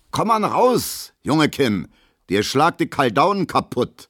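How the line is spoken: Calling after someone. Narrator (German): ruft Gustav Schmelo hinterher

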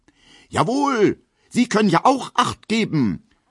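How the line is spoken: Indignant male shout. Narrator (German): ruft er in männlicher Entrüstung

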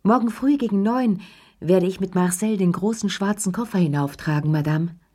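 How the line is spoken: Concierge calling down hallway. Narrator (German): die Stimme von Ernest, dem Concierge, der durch den Flur rief

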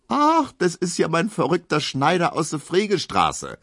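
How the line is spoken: Another man calling. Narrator (German): ruft ein anderer

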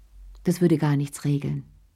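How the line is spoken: Plain. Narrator (German): sagte Cherie

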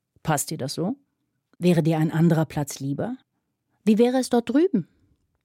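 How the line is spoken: Very calm question. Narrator (German): fragte Fanny ganz ruhig

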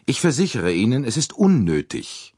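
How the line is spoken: Curt. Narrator (German): wiederholte Andrénier schroff

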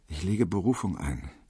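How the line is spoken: Muttering to himself. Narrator (German): vor sich hin murmelte

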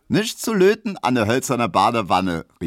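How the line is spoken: Calling out. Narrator (German): rief Emma

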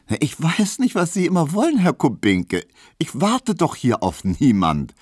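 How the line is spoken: Laughing, pointed retort. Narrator (German): versetzte Hedwig lachend, denn sie fühlte, dass sie hiermit traf

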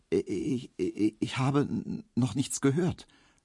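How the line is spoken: Stammering. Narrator (German): stotterte Emil Kubinke

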